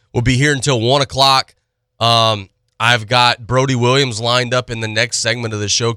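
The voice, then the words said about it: Slightly nasal, congested voice. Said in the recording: “Still dealing with some nasal, throat, sinus stuff”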